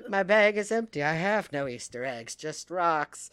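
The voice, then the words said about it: Imitates another person's voice. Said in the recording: “It's a good Mary impression, actually.”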